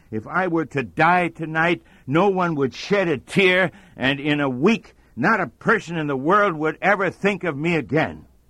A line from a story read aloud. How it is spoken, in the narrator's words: A depressed person who moans